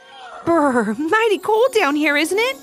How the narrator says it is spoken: Ivy gasped

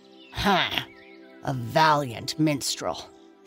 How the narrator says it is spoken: sneered the gardener

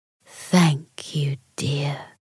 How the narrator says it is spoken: the giant said in a hushed voice

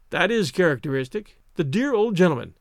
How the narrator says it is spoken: exclaimed, with real feeling

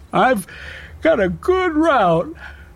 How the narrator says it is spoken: he said, yawning

